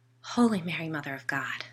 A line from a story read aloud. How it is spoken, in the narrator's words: whispered